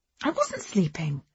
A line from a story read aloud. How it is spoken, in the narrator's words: said indignantly